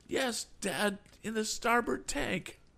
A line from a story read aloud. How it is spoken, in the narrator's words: gasped out